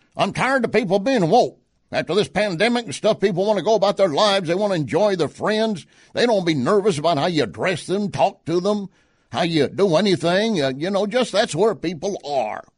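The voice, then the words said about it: Put-on Cajun accent. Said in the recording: “I like to use the accent ... he's a good old Cajun”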